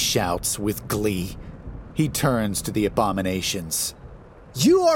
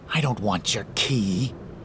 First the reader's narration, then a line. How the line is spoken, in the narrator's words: Typhon hisses